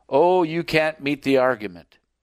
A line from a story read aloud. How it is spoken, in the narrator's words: Morrison ... chuckled and laughed and said